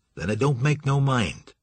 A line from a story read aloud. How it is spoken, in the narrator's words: said Grove